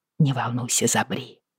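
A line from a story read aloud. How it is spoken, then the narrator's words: Whispering. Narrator (Russian): прошептала я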